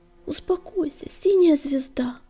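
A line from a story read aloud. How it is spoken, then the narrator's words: Pleading babble. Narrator (Russian): умоляюще лепетал он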